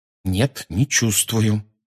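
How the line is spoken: Through gritted teeth. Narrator (Russian): сказал Гарри сквозь зубы

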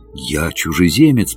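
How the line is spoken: Whisper. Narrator (Russian): прошептал я

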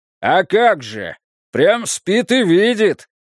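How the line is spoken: Rude bark. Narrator (Russian): грубо рявкнул в ответ Иона

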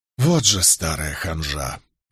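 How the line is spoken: Sigh. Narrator (Russian): вздохнул я

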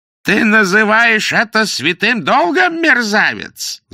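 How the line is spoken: Yelling. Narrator (Russian): заорал судья

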